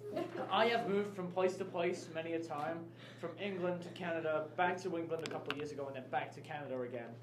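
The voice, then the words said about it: English accent. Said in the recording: “if you can't already tell by the accent, I am from England”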